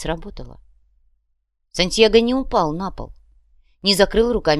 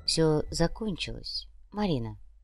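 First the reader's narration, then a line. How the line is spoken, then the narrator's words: Soft. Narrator (Russian): мягко произнес Нав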